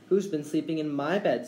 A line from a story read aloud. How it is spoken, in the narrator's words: squeaked baby bear